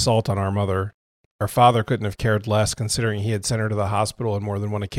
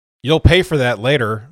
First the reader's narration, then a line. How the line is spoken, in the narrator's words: my father called out